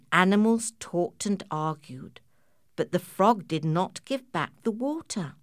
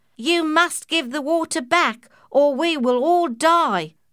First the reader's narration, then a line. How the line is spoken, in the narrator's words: shouted all the animals together